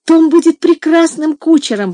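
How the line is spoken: Exclaimed. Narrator (Russian): воскликнула Ева

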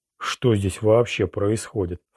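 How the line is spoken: Repeated mutter. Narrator (Russian): в который раз пробормотал Роланд

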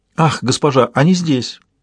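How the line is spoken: Excited exclamation. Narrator (Russian): воскликнул Спарк

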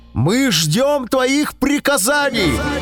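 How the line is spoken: Shouted in unison. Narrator (Russian): собаки послушно сели и крикнули

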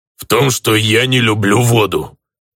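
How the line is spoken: Reluctant, forced out. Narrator (Russian): нехотя выдавил из себя мой зеленокожий друг

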